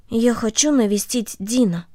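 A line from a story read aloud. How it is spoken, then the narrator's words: Quiet. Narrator (Russian): Корнелли тихо сказала ей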